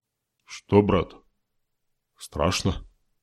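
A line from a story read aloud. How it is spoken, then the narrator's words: Quiet question. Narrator (Russian): тихо спросил Дым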